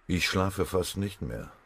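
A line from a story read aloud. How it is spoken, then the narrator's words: Gloomy murmur. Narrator (German): murmelte der Stabschef düster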